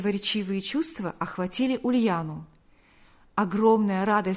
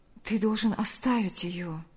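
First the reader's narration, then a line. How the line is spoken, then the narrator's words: Soft interruption. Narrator (Russian): мягко прервала его Ульяна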